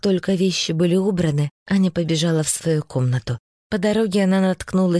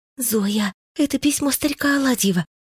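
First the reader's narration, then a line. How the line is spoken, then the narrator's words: Loud whisper. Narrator (Russian): громко шептала Аня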